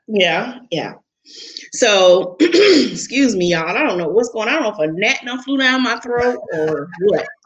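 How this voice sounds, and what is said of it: Choked-up voice. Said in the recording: “I know I've got you all choked up ... You're just choked up.”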